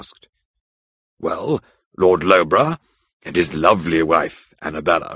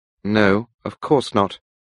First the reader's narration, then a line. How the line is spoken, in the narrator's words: I replied coldly